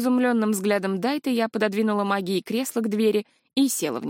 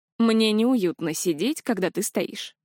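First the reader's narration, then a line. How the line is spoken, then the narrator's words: Grunting hmph. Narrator (Russian): хмыкнул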